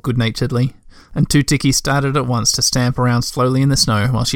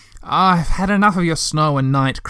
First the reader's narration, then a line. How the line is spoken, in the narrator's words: cried the Moomintroll